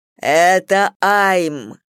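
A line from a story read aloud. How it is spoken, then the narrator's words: Growled. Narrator (Russian): прорычал Зейн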